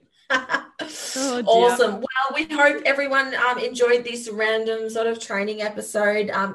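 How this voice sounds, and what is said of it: Broad Australian Bogan accent. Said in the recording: “your Bogan accent. And I'm like, yeah, that's totally us. Aussie.”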